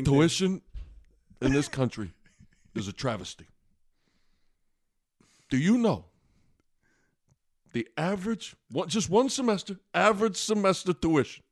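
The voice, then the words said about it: Bernie Sanders impression. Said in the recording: “your Bernie Sanders... My Bernie Sanders impression?”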